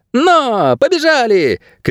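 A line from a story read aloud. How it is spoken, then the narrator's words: Shouting close to ear. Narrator (Russian): крикнул он в самое ухо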